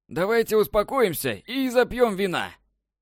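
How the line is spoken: Hysterical shout. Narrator (Russian): Закричал Ричард, заходясь в подобие истерики от надвигающейся беды

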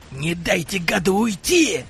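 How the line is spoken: Vicious bark. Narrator (Russian): Злобно рявкнул главарь

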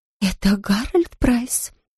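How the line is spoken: Muffled whisper. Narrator (Russian): прошептала она, прикрыв трубку ладонью

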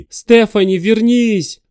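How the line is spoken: Shouting with all strength. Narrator (Russian): закричал он, что есть сил

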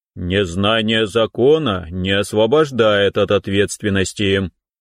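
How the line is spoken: Stern, menacing declaration. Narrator (Russian): грозно заявил инспектор

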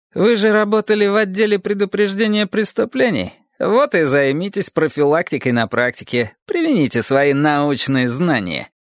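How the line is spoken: Snide, smiling young man. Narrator (Russian): ехидно улыбаясь, сказал молоденький кадровик

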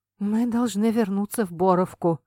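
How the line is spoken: Hoarse. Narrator (Russian): произнес он хрипло

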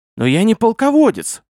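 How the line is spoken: Exclaiming. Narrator (Russian): воскликнул Гурий

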